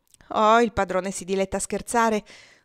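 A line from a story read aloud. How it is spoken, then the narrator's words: Laughing. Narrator (Italian): disse Adolfo ridendo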